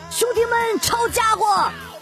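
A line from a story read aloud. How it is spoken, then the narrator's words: Shouting. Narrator (Chinese): 哥们儿喊道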